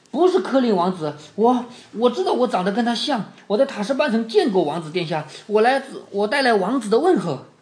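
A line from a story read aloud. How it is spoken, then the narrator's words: Breathless, panting. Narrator (Chinese): 沙斯塔摇晃着脑袋，气喘吁吁地说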